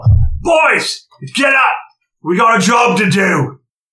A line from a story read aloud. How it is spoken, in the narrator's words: you hear him yell